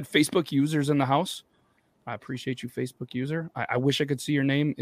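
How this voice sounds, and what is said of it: Hoarse, strained beat-up voice. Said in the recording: “I just yelled a little bit too hard, I think, on Monday... it is me with a beat up voice”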